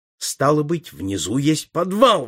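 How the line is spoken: Exclaimed. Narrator (Russian): воскликнул я

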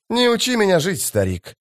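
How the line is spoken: Sighing priest. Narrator (Russian): жрец вздохнул

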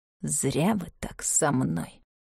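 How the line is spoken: Through gritted teeth. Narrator (Russian): сказал Мартин сквозь зубы

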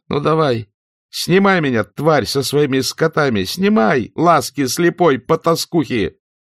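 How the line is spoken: Screaming while fainting. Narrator (Russian): теряя сознание, закричала

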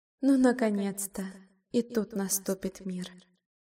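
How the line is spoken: Quiet whisper. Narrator (Russian): тихонько шепнула вслух

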